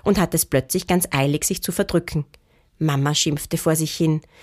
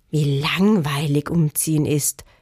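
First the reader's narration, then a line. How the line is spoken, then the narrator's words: Groaning. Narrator (German): stöhnte Lotta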